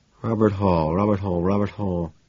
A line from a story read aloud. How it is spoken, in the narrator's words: I muttered to myself, trying to remember